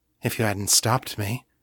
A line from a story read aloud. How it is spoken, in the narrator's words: she said quietly